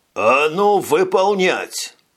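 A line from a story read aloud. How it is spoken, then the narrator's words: Growl. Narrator (Russian): рыкнул Жак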